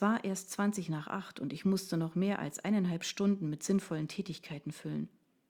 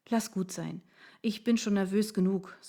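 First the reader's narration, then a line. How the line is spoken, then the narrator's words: Sighing. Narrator (German): seufzte ich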